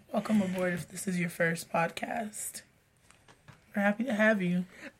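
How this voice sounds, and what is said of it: Sick, congested low voice. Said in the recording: “not trying to use, like, a sexy radio voice. It's just that she's ... sick. I am beyond sick. ... my nasal passages and my lyrics are just not cooperating”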